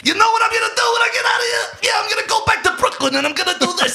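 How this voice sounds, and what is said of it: Imitates a film character's accent. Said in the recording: “His accent is my favorite in the movie”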